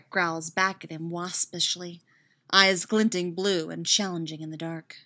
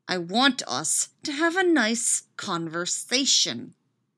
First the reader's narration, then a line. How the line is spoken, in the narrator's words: he says through gritted teeth